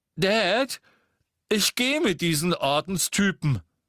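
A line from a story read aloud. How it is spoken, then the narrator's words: Loud voice. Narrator (German): sagte Dudley mit lauter Stimme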